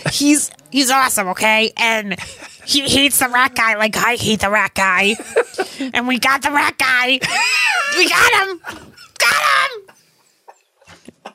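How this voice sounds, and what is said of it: Cartoonish cat character voice. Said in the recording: “Crooky! ... you gotta do the voice.”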